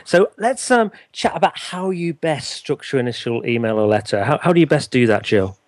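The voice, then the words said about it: Northern English accent. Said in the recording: “my northern accent”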